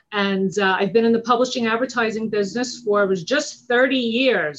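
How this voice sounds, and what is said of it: Long Island New York accent. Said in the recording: “I'm from Long Island, New York. I'm sure you could tell from the accent.”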